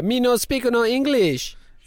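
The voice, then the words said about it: Put-on foreign accent. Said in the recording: “I don't know what the accent was, but it was making me uncomfortable.”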